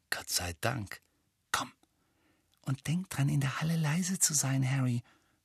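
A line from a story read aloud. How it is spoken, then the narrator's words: Whispered. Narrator (German): flüsterte Hermine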